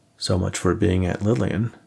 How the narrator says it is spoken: Nate said

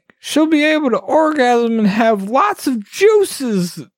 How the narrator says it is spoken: Goblin Guard exclaimed

